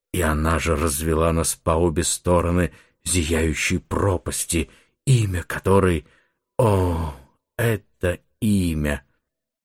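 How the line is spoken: Grave, sepulchral voice. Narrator (Russian): сообщил я за могильным голосом

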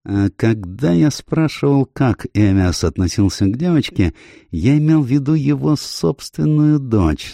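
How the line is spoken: Plain. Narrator (Russian): сказал Пуаро

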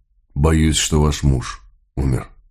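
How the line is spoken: Quiet. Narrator (Russian): тихо сказал, обращаясь к Палет

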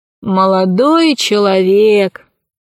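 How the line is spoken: Weary voice. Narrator (Russian): ответил Посейдон усталым голосом

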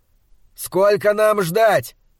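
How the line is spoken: Shouted after them. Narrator (Russian): крикнул им вслед Малаки

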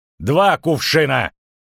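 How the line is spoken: Barked. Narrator (Russian): рявкнул Стригалки

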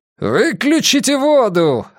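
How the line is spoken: Roaring beast. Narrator (Russian): проревел зверюга

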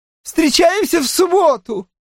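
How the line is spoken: Shouted. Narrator (Russian): прокричала Джемма

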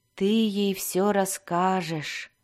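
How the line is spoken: Flat dull voice. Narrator (Russian): тусклым голосом сказал Альтон

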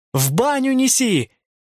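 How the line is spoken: Shouting. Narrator (Russian): Я закричала

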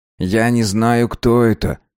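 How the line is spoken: Soft reply. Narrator (Russian): мягко ответил он

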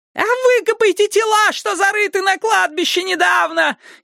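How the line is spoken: Hysterical female shriek. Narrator (Russian): истерически завизжала какая-то женщина

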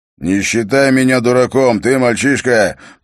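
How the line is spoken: Growling. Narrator (Russian): прорычал скандианец

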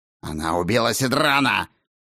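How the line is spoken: Growl. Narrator (Russian): прорычал Кларин Кровник

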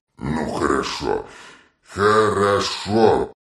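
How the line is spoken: Mumbled. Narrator (Russian): пробормотал он

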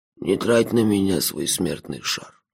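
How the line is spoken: Quiet. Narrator (Russian): тихо сказало существо

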